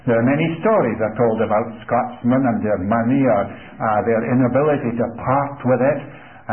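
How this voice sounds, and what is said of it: Scottish accent. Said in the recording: “people tell me that I've got a Scottish accent ... Scotsmen are reluctant to part with anything, including their accent. And that's true in this case.”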